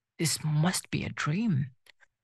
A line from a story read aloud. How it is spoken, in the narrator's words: whispered